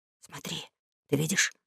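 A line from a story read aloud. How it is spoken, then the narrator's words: Whispered. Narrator (Russian): шепнул Том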